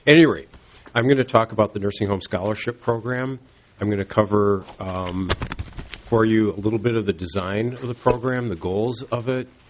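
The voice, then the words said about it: Congested voice, rough throat. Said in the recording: “I've got a bit of a cold, so I've got a lozenge in my mouth, and my throat doesn't sound so good, my voice.”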